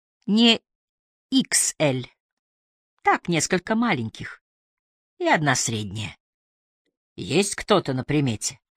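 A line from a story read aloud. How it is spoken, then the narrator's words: Quiet laugh. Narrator (Russian): Она тихо засмеялась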